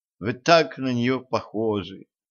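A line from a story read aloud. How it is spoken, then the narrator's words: Sad. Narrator (Russian): грустно добавила она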